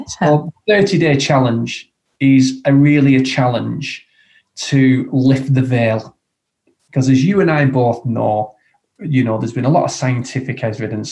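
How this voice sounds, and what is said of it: Strong Lancashire accent. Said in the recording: “very strong Lancashire accent”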